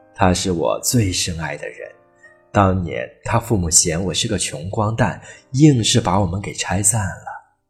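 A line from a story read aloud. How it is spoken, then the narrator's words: Suddenly much gentler. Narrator (Chinese): 老杰克的语气突然温柔了许多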